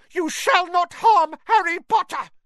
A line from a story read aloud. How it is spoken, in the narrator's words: Dobby shouted